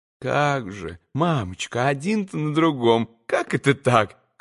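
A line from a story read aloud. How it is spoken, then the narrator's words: Tender, slightly worried babbling. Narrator (Russian): Хоть и ласково, но, опасаясь немного за мамочку, пролепетал штабс-капитан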